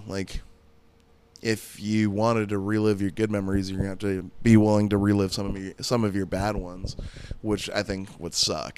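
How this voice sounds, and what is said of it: Worn-out, strained voice. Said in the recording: “My voice is so fucking bleh... burnt out... my stupid voice.”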